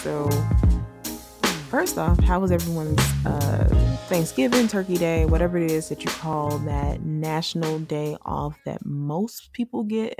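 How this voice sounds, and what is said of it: Slightly lower, alto-sounding voice. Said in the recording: “my voice has a little bit of a alto to it, but it's late”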